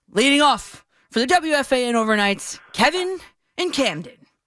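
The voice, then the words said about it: Announcer-style voice. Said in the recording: “let me give you an announcer voice here”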